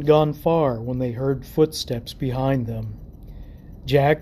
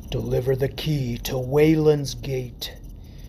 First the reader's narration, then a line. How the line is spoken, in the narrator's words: growled in a guttural rasp